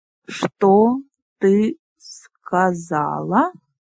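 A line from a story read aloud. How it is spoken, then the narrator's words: Slow, syllable by syllable. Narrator (Russian): произнес медленно, по слогам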